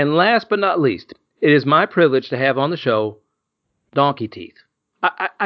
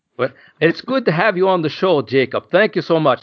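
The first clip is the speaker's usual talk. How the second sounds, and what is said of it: Weak put-on Irish accent. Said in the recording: “That's my best Irish accent. ... That, that's probably my French accent as well.”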